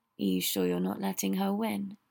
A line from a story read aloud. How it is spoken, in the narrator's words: Harry said, in his ear, too softly for Luna to hear